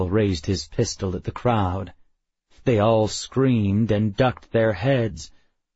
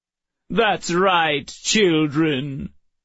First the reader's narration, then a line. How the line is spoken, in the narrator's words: Call sang mockingly